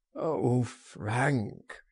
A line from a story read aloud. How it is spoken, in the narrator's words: he groaned